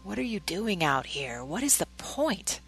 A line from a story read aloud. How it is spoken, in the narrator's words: Satan whispered